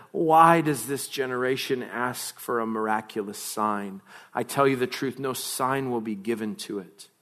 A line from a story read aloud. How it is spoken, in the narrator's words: he sighed deeply and said